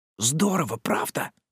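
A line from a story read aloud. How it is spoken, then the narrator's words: Whisper. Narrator (Russian): прошептал Фрем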